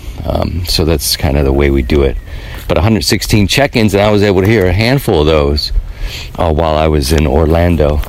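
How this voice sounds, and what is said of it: Hoarse voice. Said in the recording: “I'm hoarse. I'm a little hoarse ... from last night”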